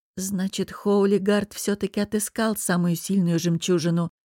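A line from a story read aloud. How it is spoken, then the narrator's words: Whisper. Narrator (Russian): прошептал Эрли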